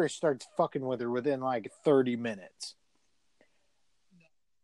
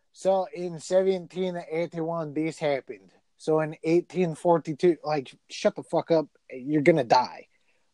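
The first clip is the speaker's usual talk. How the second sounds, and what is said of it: Attempted Scottish accent. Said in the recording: “Was that your Scottish accent? It took me a second. I thought you were just trying to talk like an old like Italian immigrant from like the 1890s.”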